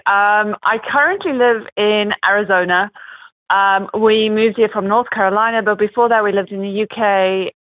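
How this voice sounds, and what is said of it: Mixed international accent. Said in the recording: “my accent's a little bit of a mixture of a little bit of everything... It's such a beautiful accent.”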